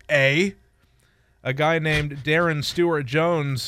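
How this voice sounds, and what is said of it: Unconvincing put-on Canadian accent. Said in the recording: “my Canadian impression ... that ain't how a Canadian says it”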